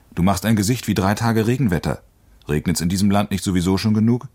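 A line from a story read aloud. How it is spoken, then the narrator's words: Loud call. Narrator (German): rief laut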